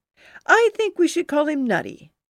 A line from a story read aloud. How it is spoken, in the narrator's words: laughed